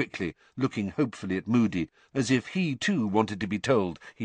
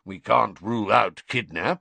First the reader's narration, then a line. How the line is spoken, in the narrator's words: growled Moody